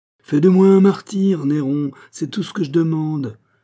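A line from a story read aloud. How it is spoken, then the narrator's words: Fiery exclamation, priest. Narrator (French): s'écria l'abbé, l'œil flamboyant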